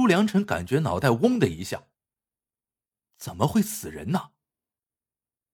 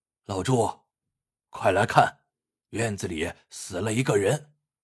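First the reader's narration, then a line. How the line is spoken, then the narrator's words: Breathless. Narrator (Chinese): 村长喘着粗气对他说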